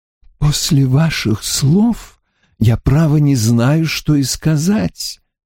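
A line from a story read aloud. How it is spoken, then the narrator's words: Unctuous, slightly trembling. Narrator (Russian): завел он елейным голосом, в котором чувствовалась дрожь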